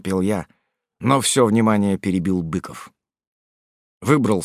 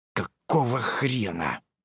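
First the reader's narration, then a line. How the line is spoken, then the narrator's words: Hiss. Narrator (Russian): прошипел я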